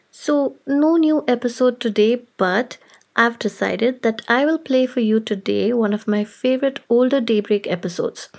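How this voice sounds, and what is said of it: Sick, flu-affected voice. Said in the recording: “As you can probably tell from my voice, I am down with a terrible case of flu.”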